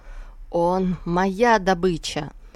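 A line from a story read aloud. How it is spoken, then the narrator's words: Malicious hiss. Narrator (Russian): туман злобно прошипел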